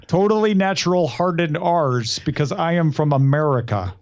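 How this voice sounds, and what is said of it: Exaggerated American accent, hard R's. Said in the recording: “give a real exaggerated American... accent... You got to harden your R's... If you want to sound like a foreigner speaking American, you have to harden your R's.”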